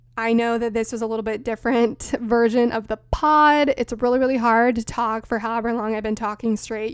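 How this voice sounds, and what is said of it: Strained, tired voice. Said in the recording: “You can probably hear my voice is a little bit strained right now.”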